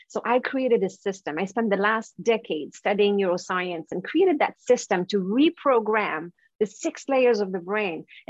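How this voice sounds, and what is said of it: Quebec French accent in English. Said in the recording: “with your accent, that's not a typical Vancouver accent. ... I'm from Quebec. So that's the French part of Canada.”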